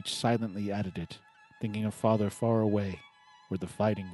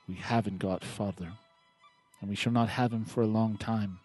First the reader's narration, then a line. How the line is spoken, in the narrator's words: Joe said sadly